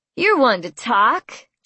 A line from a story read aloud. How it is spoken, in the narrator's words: Jason scoffed